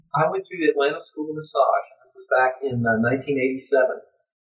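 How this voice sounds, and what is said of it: Southern US accent. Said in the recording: “It's my southern accent.”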